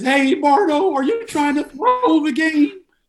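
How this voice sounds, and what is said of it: Imitates another person's voice. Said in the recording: “Kendall does this voice every pregame show”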